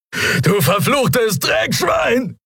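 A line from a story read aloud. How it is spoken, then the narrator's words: Shouting after someone. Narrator (German): schrie Telios ihm nach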